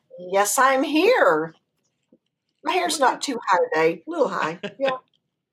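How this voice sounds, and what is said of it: Texas accent. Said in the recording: “I think the accent is enough ... my accent made them angry. They're just like, "Why are you talking that way?"”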